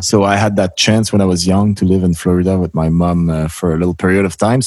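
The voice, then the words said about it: Strong French-Canadian accent in English. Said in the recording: “Our accent will never leave us ... we do have a really strong accent and proud of it”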